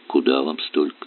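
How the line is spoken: Calm question, woman. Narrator (Russian): спокойно спросила женщина

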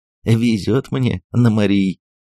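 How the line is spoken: Short laugh. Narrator (Russian): опять хохотнул Дэн

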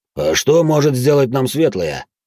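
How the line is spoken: Deep bass voice. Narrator (Russian): пробасил Ханс-младший

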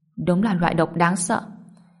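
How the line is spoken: Muttering. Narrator (Vietnamese): Ngô Bình lẩm bẩm

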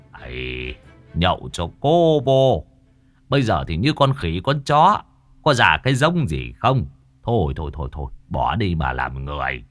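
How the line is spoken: Muttering old man. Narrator (Vietnamese): Ông cụ lẩm bẩm

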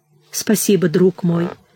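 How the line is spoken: Grateful and sad. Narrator (Russian): благодарно и грустно ответила Нина

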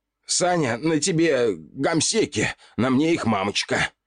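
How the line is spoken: Shouted. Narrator (Russian): Выкрикнул я

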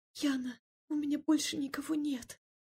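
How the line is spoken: Tearful, choking whisper. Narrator (Russian): Девушка шептала, задыхаясь в слезах

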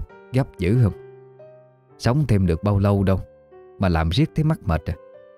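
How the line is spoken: Mocking laugh. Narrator (Vietnamese): bà Vân bật cười mỉa mai

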